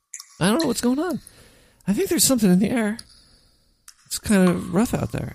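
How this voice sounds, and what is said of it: Hoarse, worn-out voice. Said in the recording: “I kind of lost my voice.”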